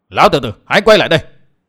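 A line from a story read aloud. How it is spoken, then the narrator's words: Shout. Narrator (Vietnamese): Gã quát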